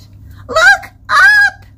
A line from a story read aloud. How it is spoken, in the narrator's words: Crystal shouted